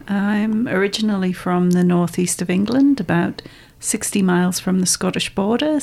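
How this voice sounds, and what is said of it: Geordie northeast English accent. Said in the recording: “I hear an accent... people often think I'm Scottish, but I'm actually Geordie by background... I thought you might be Irish.”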